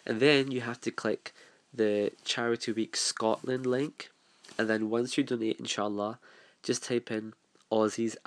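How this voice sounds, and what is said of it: Congested, sick-sounding voice. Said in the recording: “My voice is like so bleh. Oh, I have such a bad cold and a flu.”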